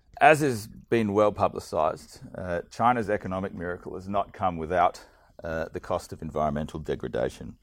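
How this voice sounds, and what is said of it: Unwell, sick-sounding voice. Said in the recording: “excuse my voice, I'm a bit under the weather”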